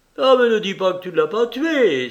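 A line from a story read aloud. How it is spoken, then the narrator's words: Exclamation. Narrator (French): s'écria-t-elle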